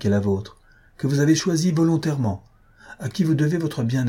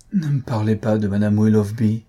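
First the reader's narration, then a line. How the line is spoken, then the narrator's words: Deep sigh. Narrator (French): reprit-il avec un profond soupir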